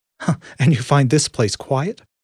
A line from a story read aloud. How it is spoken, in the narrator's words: Alejandro laughed